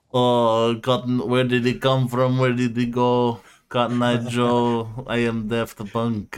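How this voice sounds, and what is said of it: Poorly done put-on French accent. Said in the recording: “French Fortnite... I don't know how to do the accent very well.”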